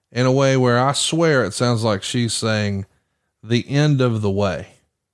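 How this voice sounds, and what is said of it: Rural Southern American accent. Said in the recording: “I'm a hillbilly, right? ... I got an accent, I reckon”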